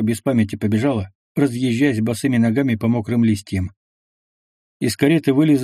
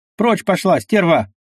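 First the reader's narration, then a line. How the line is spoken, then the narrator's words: Shouted. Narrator (Russian): крикнул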